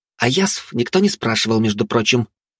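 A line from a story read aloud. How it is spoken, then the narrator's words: Snapped retort. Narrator (Russian): огрызнулась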